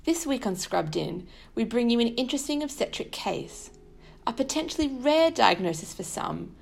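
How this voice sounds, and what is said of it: Odd Australian-influenced accent. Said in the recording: “my odd accent ... I underwent specialty training in Sydney, Australia”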